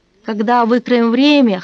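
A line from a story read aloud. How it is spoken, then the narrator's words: Short laugh. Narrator (Russian): хохотнул я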